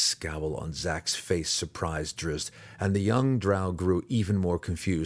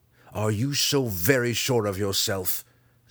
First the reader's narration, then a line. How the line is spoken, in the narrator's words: Zack growled, stubbornly